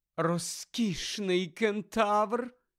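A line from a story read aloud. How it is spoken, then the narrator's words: Sighing. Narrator (Ukrainian): зітхнула Парваті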